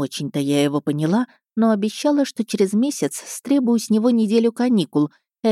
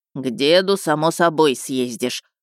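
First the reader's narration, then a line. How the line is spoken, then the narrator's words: Grumbling. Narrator (Russian): проворчал Перебор Саввич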